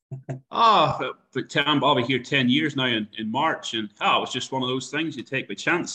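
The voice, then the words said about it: Irish accent. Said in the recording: “you've got a bit of an Irish accent there, mate”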